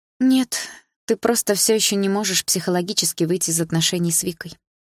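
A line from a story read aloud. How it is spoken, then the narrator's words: Sighing. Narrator (Russian): вздохнула Дилара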